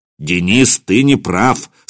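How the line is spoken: Stern statement. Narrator (Russian): строго сказал Михаил

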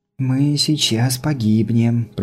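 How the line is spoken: Breathless whisper. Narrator (Russian): прошептала Илли, затаив дыхание

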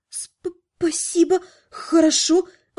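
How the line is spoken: Flustered, forced out. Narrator (Russian): выдавила растерянно

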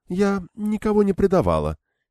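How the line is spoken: Quiet. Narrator (Russian): тихо заговорила она

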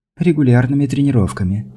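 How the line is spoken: Cooing. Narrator (Russian): проворковала

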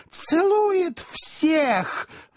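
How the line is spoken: Delighted squeal, small gentleman. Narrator (Russian): взвизгнул восторженный маленький джентльмен

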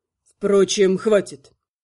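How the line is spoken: Angry self-interruption. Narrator (Russian): Эльф сердито оборвал сам себя

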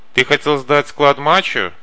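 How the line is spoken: Shouted. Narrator (Russian): крикнул Паля

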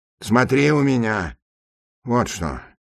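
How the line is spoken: Fairly quiet. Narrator (Russian): добавил он довольно тихо

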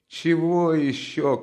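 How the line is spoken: Shouting. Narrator (Russian): крикнула Катерина Ивановна

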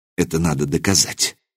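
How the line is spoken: Whisper. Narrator (Russian): прошептал я

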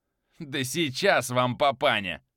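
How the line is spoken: Laughing loudly. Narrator (Russian): хохотала Ульфрида

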